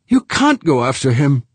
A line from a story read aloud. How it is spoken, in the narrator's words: Amanda pleaded